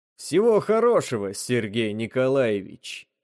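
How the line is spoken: Muffled from under helmet. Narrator (Russian): глухо донеслось из-под шлема

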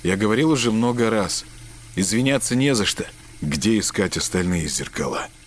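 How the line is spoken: Muffled, flat voice. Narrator (Russian): Глухо произнес Марк

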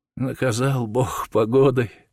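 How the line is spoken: Sighing. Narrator (Russian): вздохнула дичиха

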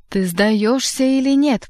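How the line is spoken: Terrible shouting voice. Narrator (Russian): прокричал страшным голосом Воланд

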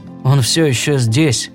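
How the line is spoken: Muttered. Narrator (Russian): пробормотал О'Нейли

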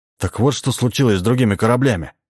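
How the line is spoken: Exclaiming. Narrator (Russian): воскликнул Джордж

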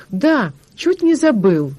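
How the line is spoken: Exclaimed. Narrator (Russian): воскликнул Палка

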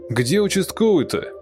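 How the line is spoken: Shouted. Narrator (Russian): крикнул Саша

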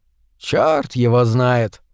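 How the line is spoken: Sighing. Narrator (Russian): вздохнул швейцар

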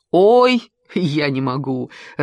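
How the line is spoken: Laughing. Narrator (Russian): рассмеялся Клит

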